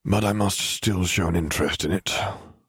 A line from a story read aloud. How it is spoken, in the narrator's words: Arcturus grumbled